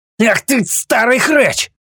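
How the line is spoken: Yelled from a distance. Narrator (Russian): Завопили от входа

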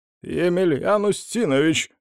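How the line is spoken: Shout. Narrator (Russian): крикнул Захар

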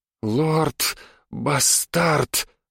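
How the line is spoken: Breathy woman. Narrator (Russian): выдохнула женщина

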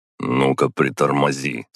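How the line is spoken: Stern. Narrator (Russian): строго сказал я

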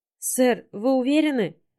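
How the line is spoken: Timid question, secretary. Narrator (Russian): робко спросила одна из клеток секретарш

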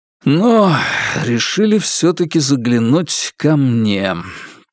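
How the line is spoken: Heavy sighing. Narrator (Russian): тяжко вздохнул Василий Оттович

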